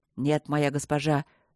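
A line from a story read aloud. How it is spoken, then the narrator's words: Through gritted teeth. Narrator (Russian): сквозь зубы проговорил он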